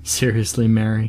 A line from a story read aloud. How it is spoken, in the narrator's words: Sean said, with a good-natured laugh